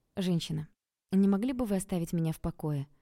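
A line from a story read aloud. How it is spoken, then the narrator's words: Calm request. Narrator (Russian): Спокойно попросила я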